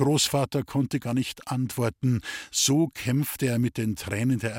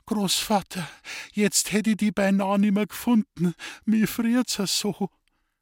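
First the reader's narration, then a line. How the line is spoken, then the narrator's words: Whimpering. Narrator (German): Sie wimmerte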